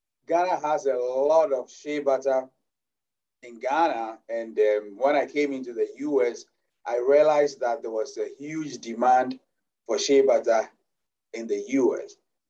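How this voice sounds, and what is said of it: Ghanaian-accented English. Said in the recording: “as you can hear from my accent, I'm originally from Ghana”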